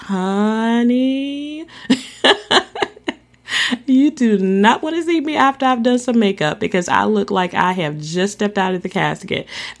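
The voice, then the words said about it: Playful gossipy 'tea' voice. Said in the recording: “in my lovely tea voice, because I am a tea sipper, but in my lovely tea voice,”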